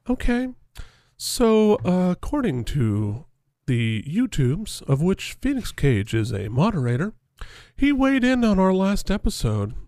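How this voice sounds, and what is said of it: Soft public-radio host voice. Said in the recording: “as I talk too loudly here in the basement ... I'm gonna talk in my NPR voice ... a little Terry Gross style”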